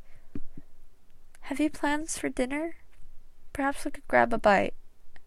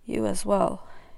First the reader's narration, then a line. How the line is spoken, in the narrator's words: he rasped